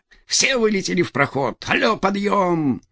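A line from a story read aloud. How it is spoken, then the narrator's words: Cheerful, playfully amused. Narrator (Russian): Голос звучал весело, словно его обладатель всего лишь безобидно развлекался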